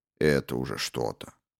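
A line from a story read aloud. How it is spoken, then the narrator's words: Gruff mutter. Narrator (Russian): буркнул Фицджеральд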